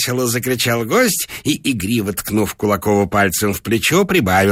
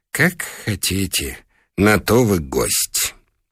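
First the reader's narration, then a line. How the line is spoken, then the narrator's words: Sighing whisper. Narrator (Russian): Хозяин вздохнул и прошептал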